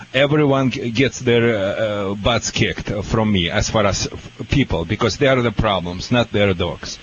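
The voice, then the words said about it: Speaks with a noticeable accent. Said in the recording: “change my accent”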